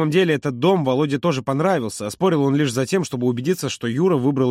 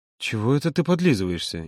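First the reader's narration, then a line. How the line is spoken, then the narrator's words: Playful grumble. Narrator (Russian): игриво буркнул Володя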